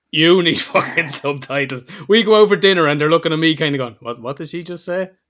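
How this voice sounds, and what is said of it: Irish accent. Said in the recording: “if you are from outside of Ireland, you may notice a little bit of a difference in the accent. Mine is from southern”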